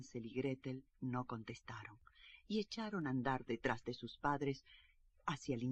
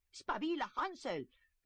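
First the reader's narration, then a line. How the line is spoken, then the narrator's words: Stepmother shouting. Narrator (Spanish): gritó la madrastra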